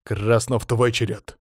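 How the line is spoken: Through gritted teeth. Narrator (Russian): Процедил сквозь зубы Колян

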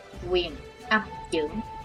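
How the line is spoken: Whispered. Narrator (Vietnamese): Chí Tôn khẽ thầm

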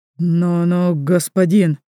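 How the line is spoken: Confused bleating. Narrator (Russian): блеет растерянно

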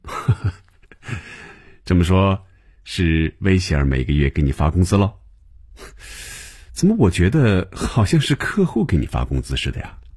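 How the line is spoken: Laughing. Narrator (Chinese): 红军便笑了起来，说

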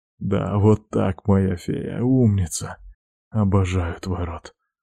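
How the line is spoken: Hoarse. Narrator (Russian): говорю сипло

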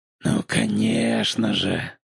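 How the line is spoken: Whispered. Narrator (Russian): прошептал он

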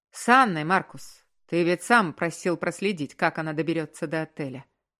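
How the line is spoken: Irritated explanation. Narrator (Russian): раздраженно пояснил ему мужчина

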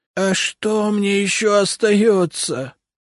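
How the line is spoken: Groaning. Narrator (Russian): простонал Рябушинский

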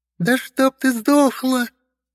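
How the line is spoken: Shrill yelling woman. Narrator (Russian): визгливо орала одна дама

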